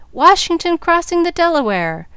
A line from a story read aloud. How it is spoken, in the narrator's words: with one voice the audience cried